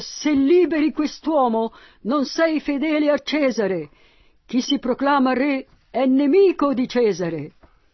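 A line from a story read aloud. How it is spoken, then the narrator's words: Accusers shouting. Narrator (Italian): i suoi accusatori gridavano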